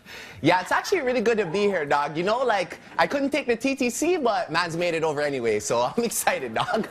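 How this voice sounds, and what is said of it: Toronto Canadian accent. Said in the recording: “what's going on with your accent there ... I'm actually Canadian ... I'm from Toronto”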